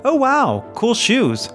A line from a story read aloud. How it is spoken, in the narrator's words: exclaim